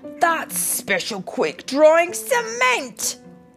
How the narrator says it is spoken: he wailed

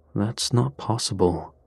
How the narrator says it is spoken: Carson muttered

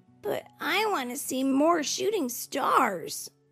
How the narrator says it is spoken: Thumper whined

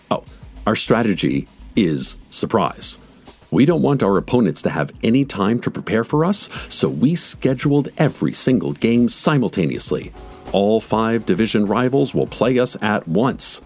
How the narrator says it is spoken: said

